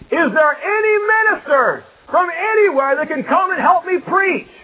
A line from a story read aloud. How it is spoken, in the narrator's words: he just started to scream out